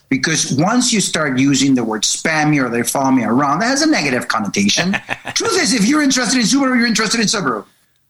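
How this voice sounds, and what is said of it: South American accent. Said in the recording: “I have an accent, being from South America, it kind of gets in the way.”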